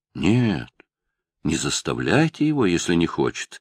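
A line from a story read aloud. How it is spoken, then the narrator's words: Calm. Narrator (Russian): сказал спокойно мсье Пьер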